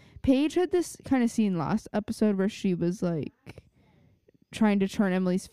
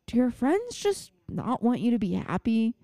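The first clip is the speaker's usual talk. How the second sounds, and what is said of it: Imitates another person's voice. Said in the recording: “That was actually a pretty good impression... It's a pretty good impression of her.”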